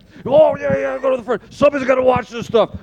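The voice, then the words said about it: Imitates another person's voice. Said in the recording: “How would Miska answer that question ... I love your Miska invitation ... Limited impersonations”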